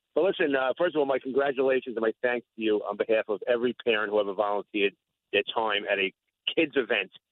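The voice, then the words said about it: Long Island Brooklyn accent. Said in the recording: “my Long Island, Brooklyn raised accent”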